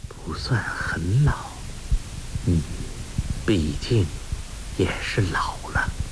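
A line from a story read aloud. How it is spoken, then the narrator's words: Muttering to oneself. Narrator (Chinese): 英姑自言自语地说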